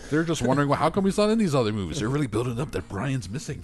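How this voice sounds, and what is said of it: Poor fake Czech accent, sounds Mexican. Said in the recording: “Why am I speaking like a Mexican? That's all terrible. That was a terrible Czech accent. That was bad. That was really bad.”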